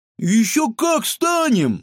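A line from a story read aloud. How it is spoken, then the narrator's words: Exclaiming girl. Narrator (Russian): воскликнула Светка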